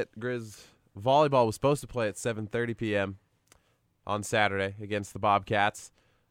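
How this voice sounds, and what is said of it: Hoarse, nearly lost voice. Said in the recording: “Got a bit of a cold. ... If you can't tell by listening in today that my voice is almost gone.”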